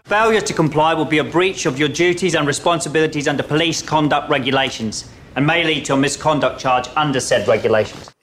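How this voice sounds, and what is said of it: Put-on London Estuary accent. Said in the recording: “Would you go for an Essex accent? ... I would say a London accent. Estuary. ... Sounds a bit Australian in parts.”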